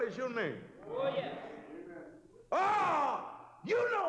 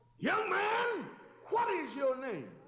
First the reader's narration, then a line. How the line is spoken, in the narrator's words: Jesus called out to him